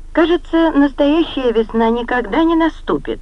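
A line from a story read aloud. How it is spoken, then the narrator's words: Sad interruption. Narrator (Russian): печально, прервала обычно веселая и жизнерадостная кузина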